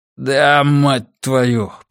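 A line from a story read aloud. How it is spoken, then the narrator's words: Groan from lying man. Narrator (Russian): простонал лежащий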